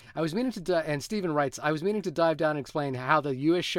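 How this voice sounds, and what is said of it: Usual voice. Nothing is said of it.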